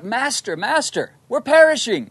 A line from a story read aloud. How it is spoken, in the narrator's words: The Lord's disciples cried out